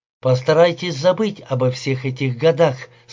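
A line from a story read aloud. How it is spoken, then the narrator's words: Plain. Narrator (Russian): сказал я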